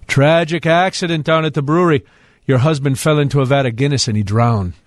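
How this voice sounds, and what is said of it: Put-on Irish accent. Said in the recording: “With the accent, too. ... I told a little Irish joke.”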